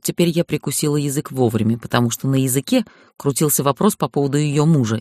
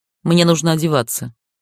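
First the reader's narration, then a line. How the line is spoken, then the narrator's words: Dry reply. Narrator (Russian): отозвалась сухо в тон ей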